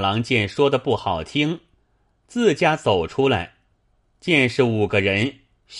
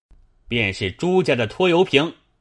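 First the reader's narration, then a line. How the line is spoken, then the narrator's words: Loud voice. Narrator (Chinese): 那一人大声道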